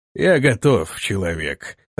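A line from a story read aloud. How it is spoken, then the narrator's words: Growl then giggle. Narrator (Russian): рыкнул он и хихикнул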